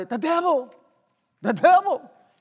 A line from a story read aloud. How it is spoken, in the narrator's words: somebody shouted